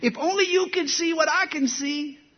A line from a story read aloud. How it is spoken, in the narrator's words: He shouted